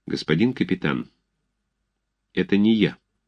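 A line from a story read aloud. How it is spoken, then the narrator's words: Quiet but firm. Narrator (Russian): Александров сказал тихо, но твердо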